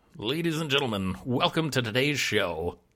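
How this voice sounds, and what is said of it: Announcer voice. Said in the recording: “I was just trying to go into my announcer voice there.”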